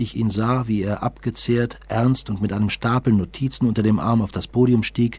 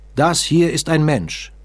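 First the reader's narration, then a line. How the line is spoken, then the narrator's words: Emphatic professor exclaiming. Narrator (German): rief der Professor mit einer gewissen Emphase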